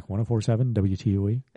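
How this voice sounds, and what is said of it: Radio announcer voice. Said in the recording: “See, I got my radio voice back.”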